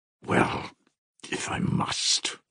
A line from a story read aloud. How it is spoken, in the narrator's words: muttered Mitya